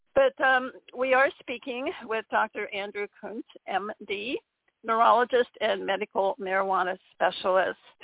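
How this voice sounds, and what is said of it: Slightly strange, worn voice. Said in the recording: “my voice sounds a little strange, it's just because it's been being used a lot the last several weeks, and I think it probably is just saying it needs a rest ... I don't necessarily always sound quite like this”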